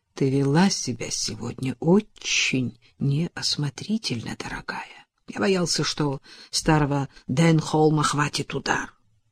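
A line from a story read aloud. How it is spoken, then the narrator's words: Angry whisper. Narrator (Russian): Ронни сердито прошептал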